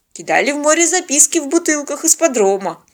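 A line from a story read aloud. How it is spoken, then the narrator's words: Sad joking. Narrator (Russian): грустно пошутил доктор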